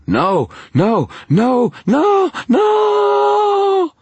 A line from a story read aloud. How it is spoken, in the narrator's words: the guard screamed